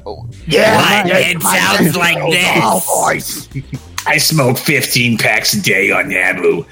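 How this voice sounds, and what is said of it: Mocking raspy heavy-smoker voice. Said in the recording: “Her sexiest little girl voice? ... why are you making fun of my voice?”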